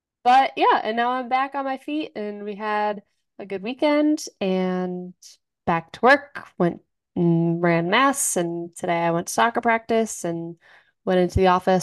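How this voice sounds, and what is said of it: Tired, stuffy congested voice. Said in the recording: “Still a little tired and a little stuffy, so I apologize if I sound weird or if I cough.”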